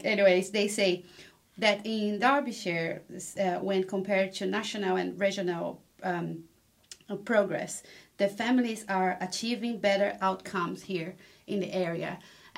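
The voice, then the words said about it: Speaks English with an accent. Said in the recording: “sorry my accent”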